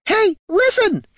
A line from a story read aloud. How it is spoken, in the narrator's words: shrieked the sprite